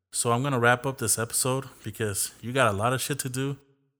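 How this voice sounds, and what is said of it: Somewhat monotone speaking voice. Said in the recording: “My voice is sometimes a little monotone. It can get boring.”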